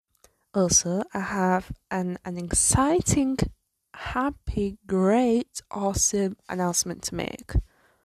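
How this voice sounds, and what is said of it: Tired, hoarse, strained voice. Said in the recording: “If I sound tired or if I'm losing my voice, That's because I am tired and I have a sore throat”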